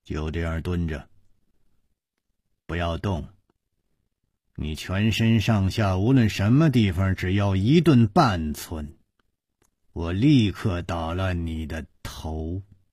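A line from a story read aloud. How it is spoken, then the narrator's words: Cold. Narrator (Chinese): 一个人冷冷地说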